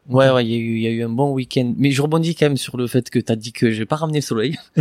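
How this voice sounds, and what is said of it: Regional French accent. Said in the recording (French): “tu m'as ramené ton accent ... il y a quand même l'accent”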